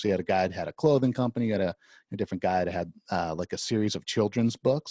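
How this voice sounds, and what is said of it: Soothing radio voice. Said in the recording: “You have a great voice for it too. You got a great radio voice ... It's very, very soothing. It's very nice.”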